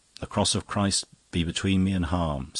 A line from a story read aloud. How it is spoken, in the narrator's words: said Father Brown